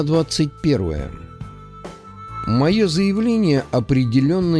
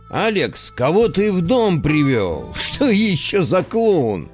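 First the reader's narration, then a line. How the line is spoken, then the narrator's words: Laughing. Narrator (Russian): смеялся Дмитрий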